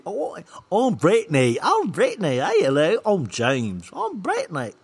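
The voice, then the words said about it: Clumsy attempt at put-on accents. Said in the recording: “See, I can't do accents.”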